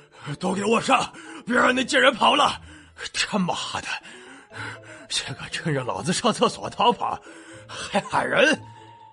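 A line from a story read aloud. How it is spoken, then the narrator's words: Breathless old man shouting. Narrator (Chinese): 老沈上了年纪，追不动，便气喘吁吁的叫手下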